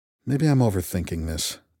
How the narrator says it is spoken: I muttered

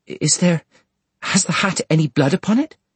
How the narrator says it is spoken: Sissy faltered

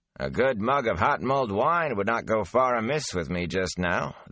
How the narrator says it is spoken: the peddler replied with a chuckle

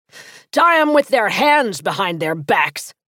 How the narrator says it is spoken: he barked

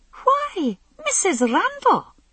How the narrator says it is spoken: she exclaimed

